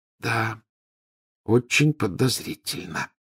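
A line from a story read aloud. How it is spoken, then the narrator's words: Near whisper. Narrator (Russian): почти прошептала Гермиона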